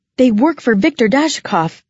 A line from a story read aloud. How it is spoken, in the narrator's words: I gasped out